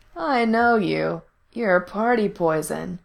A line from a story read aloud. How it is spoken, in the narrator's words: he drawled